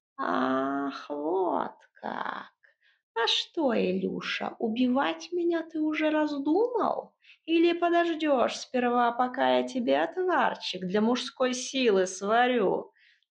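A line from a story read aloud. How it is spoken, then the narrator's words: Creaky voice from inside. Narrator (Russian): Избушка откуда-то изнутри проскрипела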